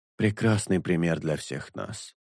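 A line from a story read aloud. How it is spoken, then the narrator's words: Sighing. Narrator (Russian): вздохнул Шелк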